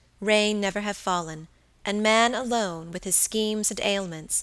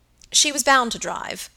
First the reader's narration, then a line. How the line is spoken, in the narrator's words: said Henry